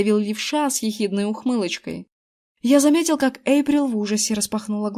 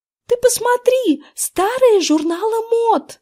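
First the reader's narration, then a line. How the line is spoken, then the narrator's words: Exclaimed. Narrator (Russian): воскликнула Эрин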